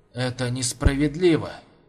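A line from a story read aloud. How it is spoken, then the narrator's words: Quiet. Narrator (Russian): тихо произнес он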